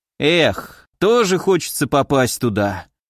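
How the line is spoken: Sighing. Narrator (Russian): вздохнул парень

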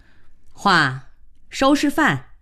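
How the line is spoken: Displeased call. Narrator (Chinese): 她不满地喊了一声

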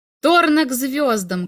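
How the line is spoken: Crowd shouting from box. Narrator (Russian): кричали из ложи космолетчиков

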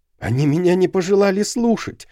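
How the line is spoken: Agitated. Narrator (Russian): взволнованно сказал он

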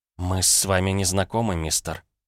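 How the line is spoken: Muttering. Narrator (Russian): пробормотала миссис Кларк

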